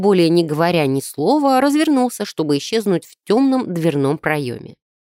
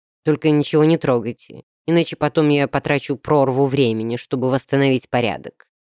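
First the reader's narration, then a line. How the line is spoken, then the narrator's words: Grumbled. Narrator (Russian): проворчал лорд Широ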